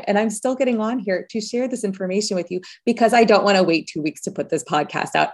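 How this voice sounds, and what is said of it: Slightly funny, recovering voice. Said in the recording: “I just got over laryngitis. I didn't have a voice. So if my voice sounds a little funny right now and different than usual”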